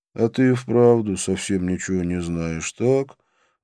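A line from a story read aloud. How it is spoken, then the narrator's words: Sighing. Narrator (Russian): вздохнул Вишну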